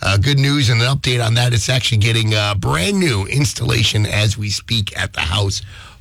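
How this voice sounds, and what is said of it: Slightly strained voice. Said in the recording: “my voice is a little strained. I haven't been feeling the best last couple days, trying to get over cold.”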